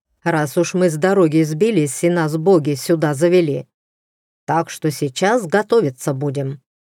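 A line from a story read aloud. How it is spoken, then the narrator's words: Loud. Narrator (Russian): громко сказал человек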